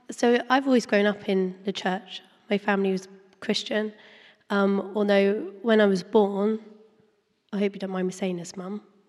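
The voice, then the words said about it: Strained, hoarse voice. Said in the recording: “You're going to have to beware of my voice, because I am also losing my voice too.”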